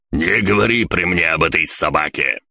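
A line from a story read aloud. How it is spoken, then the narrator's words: Furious spluttering bark. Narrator (Russian): Брызжа слюной рявкнул Фаустус в гневе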